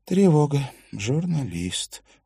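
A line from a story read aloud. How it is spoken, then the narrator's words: Sighing. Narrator (Russian): вздохнула Катрина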